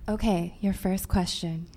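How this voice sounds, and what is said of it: Smooth, soft radio-announcer voice. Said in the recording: “busting out your NPR voice ... Or like your sexy yoga voice”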